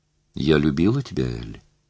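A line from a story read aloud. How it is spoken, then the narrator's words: Calm. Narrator (Russian): сказала спокойно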